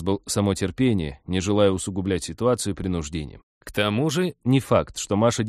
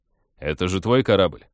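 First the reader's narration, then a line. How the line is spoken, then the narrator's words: Skeptical snort. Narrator (Russian): хмыкнул Вадим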